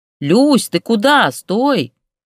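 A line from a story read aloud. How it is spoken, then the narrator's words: Shouted in chorus, two women. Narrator (Russian): хором закричали Штукина и Ксения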